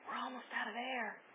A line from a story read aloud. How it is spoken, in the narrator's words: One of the Ming brothers whispered